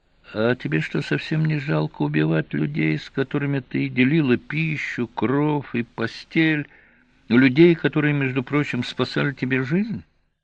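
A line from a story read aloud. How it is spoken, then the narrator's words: Insinuating question. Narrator (Russian): Он вкрадчиво спросил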